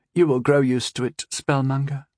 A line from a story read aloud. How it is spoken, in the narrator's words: she said with a sigh